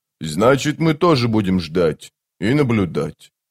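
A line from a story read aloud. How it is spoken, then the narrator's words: Plain. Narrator (Russian): Тротт спросил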